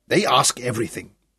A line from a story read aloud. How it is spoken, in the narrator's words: Leroux spoke bitterly